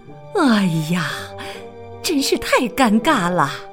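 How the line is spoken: Sighing mother. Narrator (Chinese): 妈妈叹了口气

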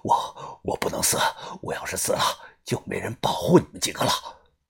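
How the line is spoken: Panting. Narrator (Chinese): 于哥喘着气说道

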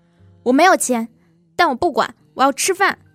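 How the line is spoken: Tearful shout. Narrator (Chinese): 猪头擦擦眼泪……大喊

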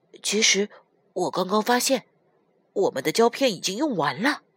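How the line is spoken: Quiet addition. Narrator (Chinese): 悠悠小声补充道

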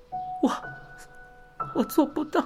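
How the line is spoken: Crying. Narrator (Chinese): 优美子哭着说道

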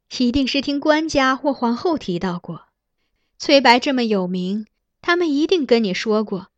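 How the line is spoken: Laughing. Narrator (Chinese): 苗贤妃笑道

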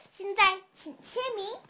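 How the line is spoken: Soft, gentle. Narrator (Chinese): 轻声说

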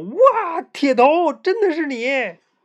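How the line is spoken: Shouted. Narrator (Chinese): 我喊出

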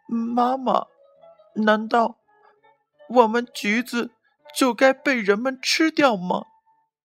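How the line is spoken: Crying. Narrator (Chinese): 他哭着说

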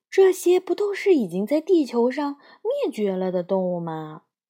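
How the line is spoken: Soft sigh. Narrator (Chinese): 他轻轻地叹了口气

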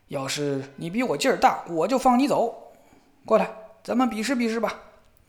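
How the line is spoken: Old man shouting. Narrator (Chinese): 老头大叫道

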